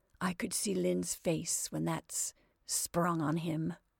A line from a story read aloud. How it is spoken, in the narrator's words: he muttered